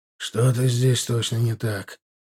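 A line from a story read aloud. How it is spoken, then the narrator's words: Whisper in ear. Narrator (Russian): шепнул на ухо Милар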